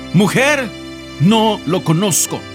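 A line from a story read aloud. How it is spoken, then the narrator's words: Shouted. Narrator (Spanish): Él gritó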